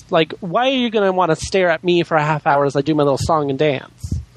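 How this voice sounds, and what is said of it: High, flamboyant drag-queen-like voice. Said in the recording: “You sound like a great drag queen ... I'm not putting on a voice ... this is my voice. Like, I don't have, like, a man voice where I try and lower it down.”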